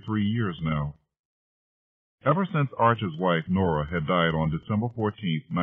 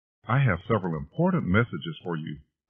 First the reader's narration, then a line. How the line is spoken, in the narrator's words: Mary Catherine announced brightly